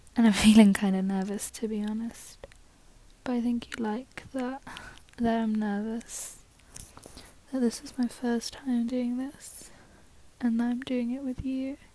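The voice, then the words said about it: English accent. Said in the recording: “I live in England, I don't know if you can tell by my accent.”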